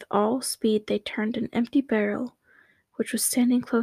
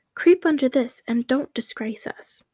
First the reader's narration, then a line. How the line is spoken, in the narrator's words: cried the two sisters